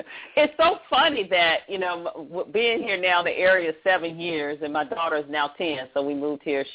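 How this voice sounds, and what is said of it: Rural country accent. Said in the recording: “I'm a country girl ... I don't try to disguise my accent.”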